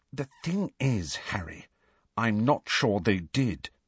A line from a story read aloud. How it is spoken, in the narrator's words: said Hermione grimly